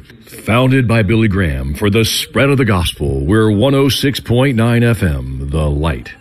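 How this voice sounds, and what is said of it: Big booming radio announcer voice. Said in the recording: “do my big voice now? Can I do the big voice?”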